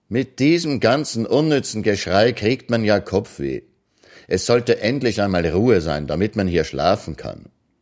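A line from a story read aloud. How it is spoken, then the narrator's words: Loud but not shouting. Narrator (German): Ekianga, ohne zu rufen, sagte nur laut, aber so, dass man es 5 Hütten weit hören konnte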